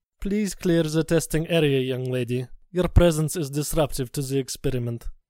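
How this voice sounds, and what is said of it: Stiff foreign accent. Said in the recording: “the stiff accent of Dr. Bollier over the intercom”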